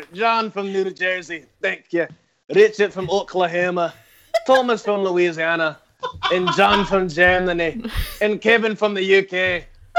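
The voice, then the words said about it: Put-on Scottish accent. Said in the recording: “do that Scottish accent again ... you want the Scottish accent again?”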